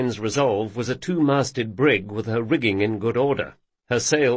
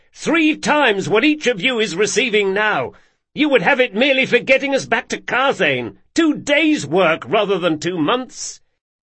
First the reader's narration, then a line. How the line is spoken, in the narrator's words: said Locke, raising his voice to a shout